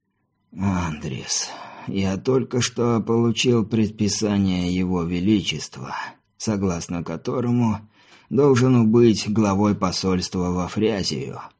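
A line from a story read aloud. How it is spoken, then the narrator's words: Creaky old voice. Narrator (Russian): проскрипел старческий голос хозяина кабинета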